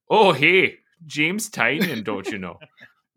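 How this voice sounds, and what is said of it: Bad put-on Minnesota accent. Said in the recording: “It's a really bad accent. Although for like the Minnesota”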